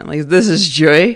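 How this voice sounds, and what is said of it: Playful put-on French accent. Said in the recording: “I feel like I'm saying it with like a French accent.”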